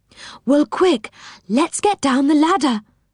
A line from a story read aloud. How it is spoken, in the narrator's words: cried Silky